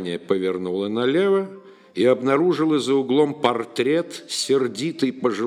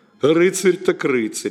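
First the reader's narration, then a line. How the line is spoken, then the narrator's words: Snide remark. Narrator (Russian): ехидно заметил Иоанн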